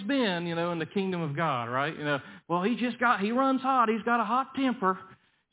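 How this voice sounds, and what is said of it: Put-on Southern US accent. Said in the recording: “I hope nobody found the Southern accent offensive”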